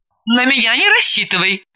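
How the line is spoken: Laughing. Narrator (Russian): рассмеялась Далила

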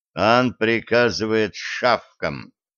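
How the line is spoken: Grim, through teeth. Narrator (Russian): мрачно процедил Денис, старательно разыгрывая из себя демоническую личность

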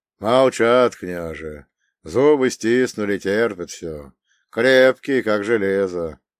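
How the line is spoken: Sighing. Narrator (Russian): вздохнул он

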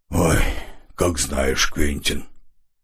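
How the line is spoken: Heavy sigh. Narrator (Russian): барон тяжко вздохнул

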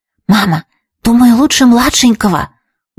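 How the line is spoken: Whisper. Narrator (Russian): услышала я шепот Трис

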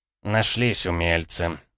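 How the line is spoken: Angry smirk. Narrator (Russian): Гомельский зло усмехнулся

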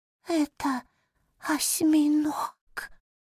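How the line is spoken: Faint whisper. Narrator (Russian): едва проговорил шепотом

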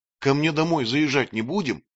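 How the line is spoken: Plain. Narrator (Russian): спросила Маша

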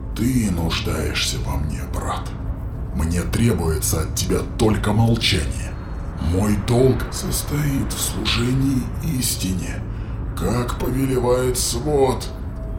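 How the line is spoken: Prisoner hissing with effort. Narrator (Russian): прошипел узник, собравшись силами

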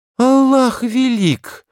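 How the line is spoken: Merchant exclaiming. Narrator (Russian): воскликнул купец Али

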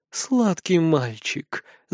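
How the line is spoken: Whispering in ear. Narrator (Russian): зашептала в ухо

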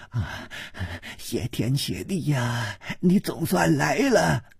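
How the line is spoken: Panting, frightened. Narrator (Chinese): 良马，他一张苍老干瘪的脸，也不知道是因为被风吹的还是害怕而发了青，喘息着说

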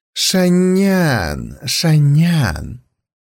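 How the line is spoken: Purring. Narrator (Russian): промурлыкал он

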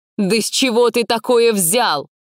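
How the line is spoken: Shouting. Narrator (Russian): выкрикнула она

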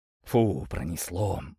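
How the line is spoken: Relieved exhale. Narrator (Russian): выдохнул Тит

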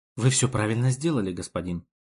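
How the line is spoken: Sudden whisper. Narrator (Russian): внезапно шепнула мне та

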